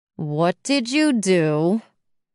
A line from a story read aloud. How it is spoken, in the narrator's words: I groaned